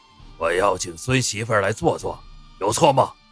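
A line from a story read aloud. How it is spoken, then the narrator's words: Angry shout. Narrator (Chinese): 宋振廷怒喝一声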